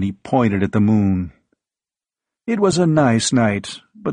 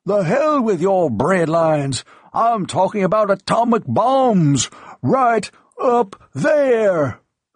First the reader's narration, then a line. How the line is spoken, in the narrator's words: Old Charlie kept roaring